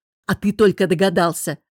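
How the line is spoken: Snapping retort. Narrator (Russian): огрызнулся друг

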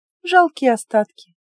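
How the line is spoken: Sad. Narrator (Russian): печально сказала

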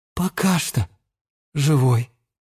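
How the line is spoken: Sad. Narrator (Russian): печально сказал Леон

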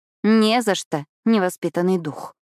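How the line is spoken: Grumbled. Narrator (Russian): проворчала я

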